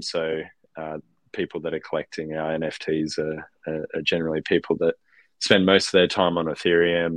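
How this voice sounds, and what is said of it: Australian accent. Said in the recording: “my Australian accent, sometimes it can be a bit tricky”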